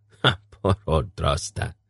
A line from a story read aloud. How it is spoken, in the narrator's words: Urgot chuckled